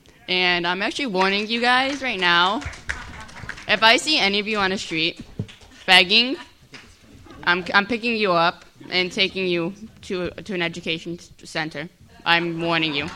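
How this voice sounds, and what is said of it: Stern teacher voice. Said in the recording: “That's my teacher voice”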